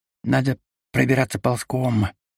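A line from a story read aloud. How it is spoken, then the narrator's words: Whispering. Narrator (Russian): прошептал Кейвор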